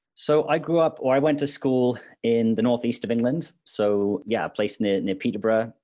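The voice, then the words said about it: British accent. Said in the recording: “you have a very lovely British accent.”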